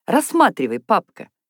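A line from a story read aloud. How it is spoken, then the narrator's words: Cheerful. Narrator (Russian): весело сказала Наташа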